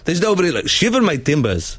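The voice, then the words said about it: Attempted Somali accent, sounds Jamaican. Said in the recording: “I was trying to do like a Somali accent ... it sounded Jamaican”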